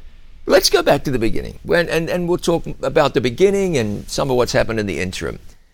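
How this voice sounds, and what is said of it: Real Southern American accent. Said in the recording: “you have the real Southern accent. You got the real Southern accent.”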